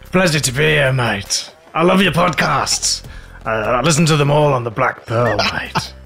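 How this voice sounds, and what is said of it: Jack Sparrow pirate voice impression. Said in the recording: “the world-renowned Captain Jack Sparrow impersonator ... I knew he would have to break into it”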